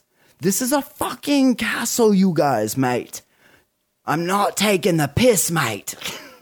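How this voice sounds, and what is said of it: Put-on Australian-sounding accent. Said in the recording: “Why do you keep doing an Australian accent? ... That's my British accent, mate. ... That's my Australian accent.”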